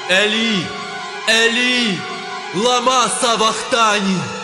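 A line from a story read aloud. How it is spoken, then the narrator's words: Loud cry. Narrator (Ukrainian): скрикнув Ісус гучним голосом, кажучи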